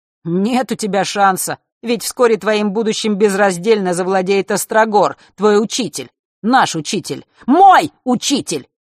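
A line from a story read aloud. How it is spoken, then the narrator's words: Sudden shout. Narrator (Russian): вдруг выкрикнул он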